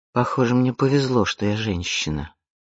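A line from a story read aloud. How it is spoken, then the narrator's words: Mumbled. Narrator (Russian): пробормотала Изабель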